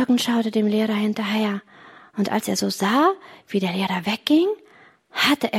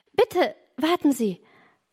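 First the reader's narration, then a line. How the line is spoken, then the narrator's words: Call. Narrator (German): rief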